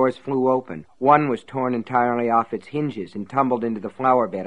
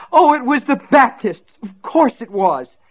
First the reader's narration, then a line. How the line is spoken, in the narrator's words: Betsy screamed, and then she began to weep